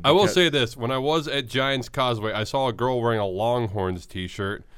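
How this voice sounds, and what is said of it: Voice sounds different, chest cold. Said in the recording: “if I sound a little different, I'm getting over a little bit of a chest cold”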